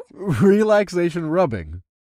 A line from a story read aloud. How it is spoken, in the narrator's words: I chuckled